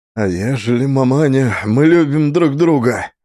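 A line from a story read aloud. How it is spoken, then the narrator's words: Heated exclamation. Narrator (Russian): запальчиво воскликнул Трофим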